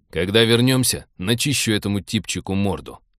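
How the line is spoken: Grim. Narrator (Russian): мрачно пообещал Тед

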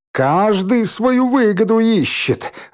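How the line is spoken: Joyful shout. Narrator (Russian): радостно крикнул Валька

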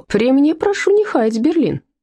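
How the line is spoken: Friendly laughing. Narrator (Russian): дружелюбно рассмеялся Том Тейлор

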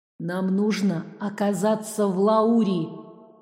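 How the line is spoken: Hoarse echoing old woman. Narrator (Russian): Голос бабули разносился хриплым эхом

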